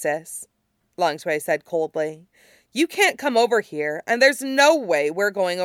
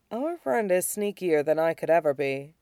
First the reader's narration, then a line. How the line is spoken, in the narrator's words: Shirong murmured back